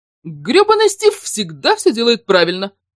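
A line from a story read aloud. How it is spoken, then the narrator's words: Amused grunt. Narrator (Russian): хмыкнул, наслаждаясь стаканчиком джамуки с миндалем Баскин Робинс в Лос-Альтос, Энди Гроув, легендарный CEO Intel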